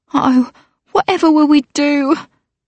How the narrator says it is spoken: her maid sobbed

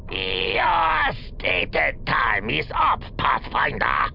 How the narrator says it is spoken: Crowfip growled

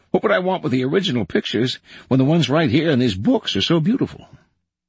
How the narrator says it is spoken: he exclaimed

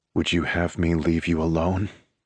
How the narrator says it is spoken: He asks, his tone rough yet quiet

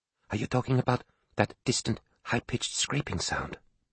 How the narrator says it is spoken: she whispered

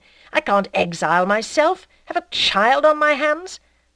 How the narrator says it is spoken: he exclaimed

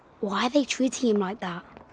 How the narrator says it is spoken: Jack whispered to the Christmas pig

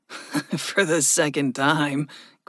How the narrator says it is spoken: Gregory chuckled

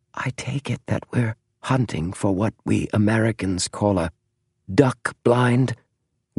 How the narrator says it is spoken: whispered James

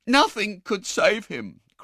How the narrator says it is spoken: cried the girl

